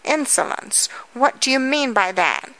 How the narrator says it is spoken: she cried in confusion

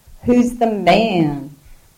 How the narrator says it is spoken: She laughed, a nervous bark

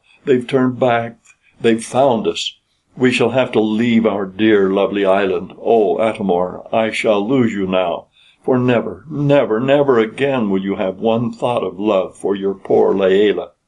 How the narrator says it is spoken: cried Layelah

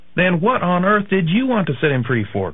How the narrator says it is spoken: cried Aunt Polly

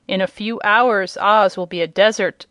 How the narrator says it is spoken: said the chief of the Whimsies with an evil laugh

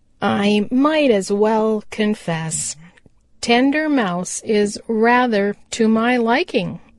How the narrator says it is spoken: said he

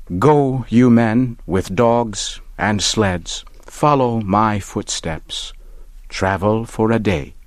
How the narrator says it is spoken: he said

